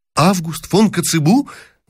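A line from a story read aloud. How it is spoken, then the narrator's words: Delighted exclamation. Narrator (Russian): воскликнул было с порывом восторга принц Евгений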